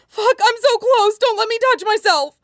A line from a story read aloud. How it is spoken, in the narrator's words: he blurted out desperately